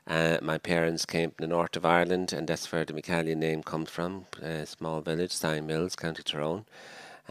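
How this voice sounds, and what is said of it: Irish Dublin accent. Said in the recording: “you might tell from my accent that I'm not from Scotland, but I'm a Dublin man”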